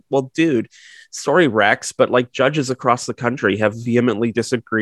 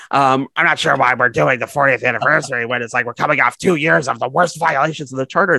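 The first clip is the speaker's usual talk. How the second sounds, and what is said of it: Penguin-like character voice. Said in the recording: “doing a penguin voice”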